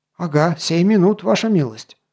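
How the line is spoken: Innkeeper mumbling. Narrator (Russian): забормотал хозяин таверны

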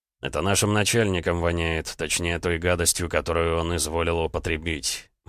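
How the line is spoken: Gloomy. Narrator (Russian): мрачно произнес Роман

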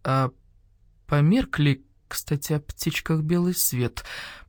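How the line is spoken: Old badger's mutter. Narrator (Russian): пробормотал барсук-старший

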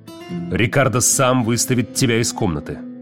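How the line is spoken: Growled. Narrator (Russian): прорычал я

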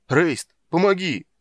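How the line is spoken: Shouting. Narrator (Russian): закричал Карамон

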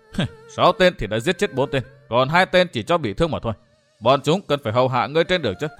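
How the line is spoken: Sneering speech. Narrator (Vietnamese): Vu Tư Minh cười khẩy nói

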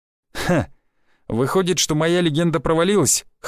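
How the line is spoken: Snorting. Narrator (Russian): хмыкнул я

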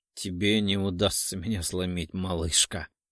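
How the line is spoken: Mocking chuckle. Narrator (Russian): хохотнул

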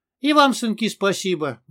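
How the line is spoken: Sad smiling reply. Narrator (Russian): грустно улыбнувшись, ответил Петрович

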